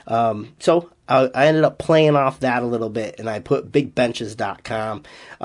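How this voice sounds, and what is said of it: Slight Boston accent. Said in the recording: “I have a Boston accent ... I guess I do have a little bit of an accent”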